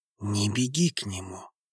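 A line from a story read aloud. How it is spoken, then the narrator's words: Barely audible. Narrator (Russian): повторил он, еле слышно добавил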